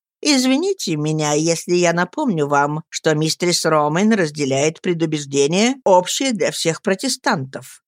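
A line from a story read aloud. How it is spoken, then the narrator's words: Plain. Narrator (Russian): сказал я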